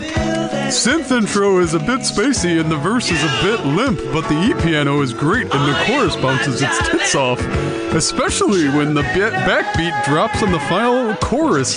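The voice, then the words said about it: Silly dumb reading voice. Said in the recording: “I'll do it in a dumb voice ... Kind of an Eeyore on Xanax.”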